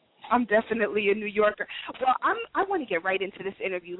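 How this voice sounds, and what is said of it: New York accent. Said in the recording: “You're from New York, aren't you? ... I like the accent.”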